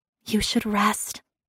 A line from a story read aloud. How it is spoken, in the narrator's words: whispered